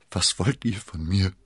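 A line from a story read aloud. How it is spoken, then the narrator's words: Groaned. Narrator (German): stöhnte sie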